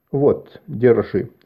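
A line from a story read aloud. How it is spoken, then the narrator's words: Normal tone. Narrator (Russian): сказал он уже нормальным тоном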